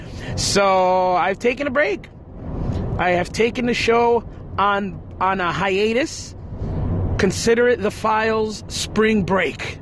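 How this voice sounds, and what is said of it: Strained, worn-out voice. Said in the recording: “my voice is shot. I'm feeling it right now. I'm struggling to try to talk right now because my voice is still shot”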